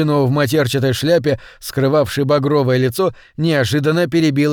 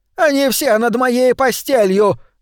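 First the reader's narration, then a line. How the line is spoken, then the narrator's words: Shouting out. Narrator (Russian): выкрикнула она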